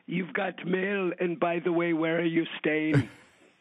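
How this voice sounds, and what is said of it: Arianna Huffington impression, heavy Greek accent. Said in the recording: “how would she do it? She'd have that heavy Greek accent.”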